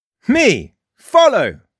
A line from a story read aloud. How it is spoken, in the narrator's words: barked the boy